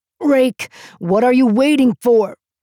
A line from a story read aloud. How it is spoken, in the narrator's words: Jacken shouted